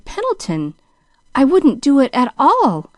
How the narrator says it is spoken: she stammered a little wildly

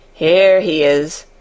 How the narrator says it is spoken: chuckled the old man

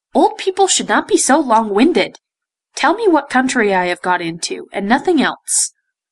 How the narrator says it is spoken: said the prince, in his most impatient tone

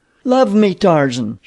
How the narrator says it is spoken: cried

